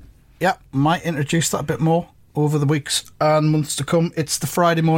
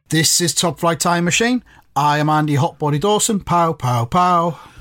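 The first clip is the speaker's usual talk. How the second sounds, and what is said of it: Sung, lilting musical introduction. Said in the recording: “I sang my introduction there a little bit ... You found it lilting? ... a little musical lilt”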